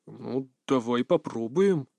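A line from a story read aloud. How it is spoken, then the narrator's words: Hesitant agreement. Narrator (Russian): неуверенно согласился Рюко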